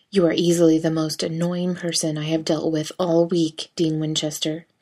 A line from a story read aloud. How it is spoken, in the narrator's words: Castiel growls